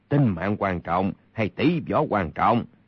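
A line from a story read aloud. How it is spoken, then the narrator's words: Cold. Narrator (Vietnamese): Kha Trấn Ác lạnh lùng nói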